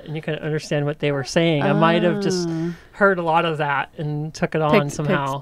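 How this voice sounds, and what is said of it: Southern American accent. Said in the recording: “it's just the way I talk... someone actually said that I sound like I'm from northeastern Arkansas... Maybe you have a bit of an accent... I hear an accent with you too... Southern accent”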